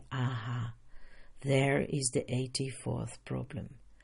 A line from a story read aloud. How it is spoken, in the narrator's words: We can realize with a deep sigh